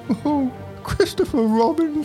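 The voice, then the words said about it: Cartoon bear character voice. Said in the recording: “I wish like I could do a Pooh accent ... That's as best as I can do.”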